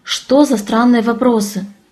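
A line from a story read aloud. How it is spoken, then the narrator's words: Tired question. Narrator (Russian): Устало спросила я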